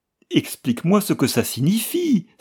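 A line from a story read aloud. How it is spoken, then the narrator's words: Desperate cry. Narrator (French): s'écria-t-elle désespérément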